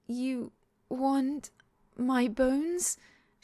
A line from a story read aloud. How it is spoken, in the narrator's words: She croaks